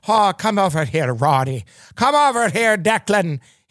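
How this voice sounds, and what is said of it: Attempted Irish brogue. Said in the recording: “I should be able to do a brogue. ... am I getting close to it?”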